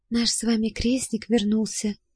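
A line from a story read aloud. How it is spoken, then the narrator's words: Whispered reply. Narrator (Russian): тоже шепотом ответила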